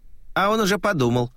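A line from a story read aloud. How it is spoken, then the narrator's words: Snorting. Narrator (Russian): хмыкнул Карабаш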